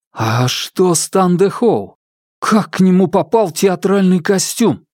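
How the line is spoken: Through clenched teeth. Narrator (Russian): процедил сквозь стиснутые зубы

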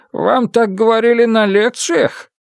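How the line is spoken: Laughing. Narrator (Russian): Фан Му рассмеялся

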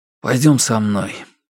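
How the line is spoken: Calm. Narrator (Russian): спокойно сказал

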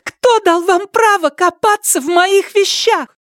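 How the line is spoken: Tearful shout. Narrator (Russian): Слезы брызнули у Ляо Яфан из глаз, и она прокричала

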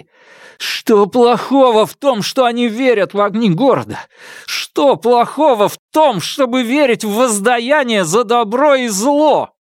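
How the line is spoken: Dying rasp. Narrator (Russian): он хрипел так, словно в любой момент мог испустить последний вздох

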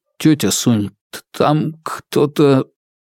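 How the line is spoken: Stammering mutter. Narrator (Russian): заикаясь, пробормотал

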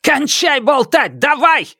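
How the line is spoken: Shouted out. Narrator (Russian): выкрикнул Джен Линь

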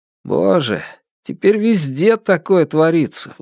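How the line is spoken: Sigh, older brother. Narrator (Russian): вздохнул старший брат

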